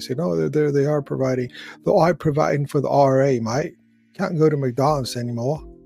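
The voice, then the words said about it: Put-on British accent. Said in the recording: “That was my British accent.”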